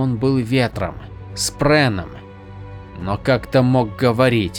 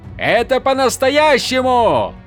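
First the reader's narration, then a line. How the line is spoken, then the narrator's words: Yelling. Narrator (Russian): заорал Каладин, обращаясь к буре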